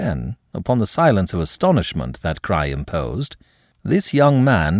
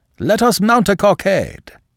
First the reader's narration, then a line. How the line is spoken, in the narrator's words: he cried